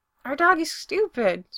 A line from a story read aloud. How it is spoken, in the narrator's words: Spencer says happily